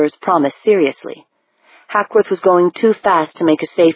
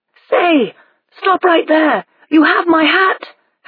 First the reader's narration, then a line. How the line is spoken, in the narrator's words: Hackworth shouted